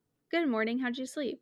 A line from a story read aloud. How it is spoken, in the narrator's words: she asked in her usual chipper tone